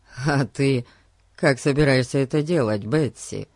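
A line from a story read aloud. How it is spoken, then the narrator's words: Mocking question. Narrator (Russian): Насмешливо глядя на сестричку, спросил Пип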